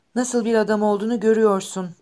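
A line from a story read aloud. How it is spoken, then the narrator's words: Trembling voice. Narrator (Turkish): dedi titreyen bir sesle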